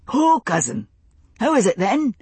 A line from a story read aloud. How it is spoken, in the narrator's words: he asked cheerfully